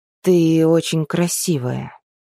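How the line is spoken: Hoarse. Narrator (Russian): хрипло сказал Мэл

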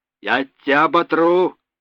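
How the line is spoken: Yelling. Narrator (Russian): орал боцман

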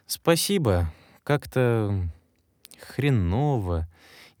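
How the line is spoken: Uncertain drawl. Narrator (Russian): неуверенно протянул я

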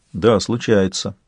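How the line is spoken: Even, level voice. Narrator (Russian): ровным голосом сказал канцлер

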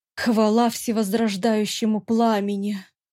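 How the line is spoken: Relieved exhale. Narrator (Russian): Облегченно выдохнула Делира

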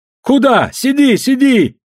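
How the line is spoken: Group shouting. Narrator (Russian): закричали игравшие

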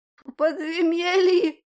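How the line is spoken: Fearful whimper. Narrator (Russian): Проскулил тот, страшась смотреть на широкое лезвие

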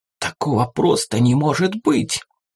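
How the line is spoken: Excited whisper. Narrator (Russian): Возбужденно зашептала Фатима, осознав масштаб произошедшего

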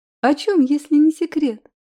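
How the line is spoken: Sweet angelic question. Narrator (Russian): спросила я ангельским голосочком

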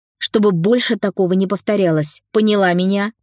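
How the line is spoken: Supervisor growling. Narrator (Russian): рыкнула супервайзер

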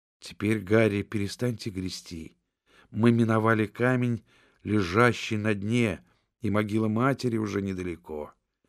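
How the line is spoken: Girl whispering. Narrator (Russian): девушка прошептала

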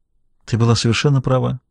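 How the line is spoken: Quiet. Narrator (Russian): тихо произнес он

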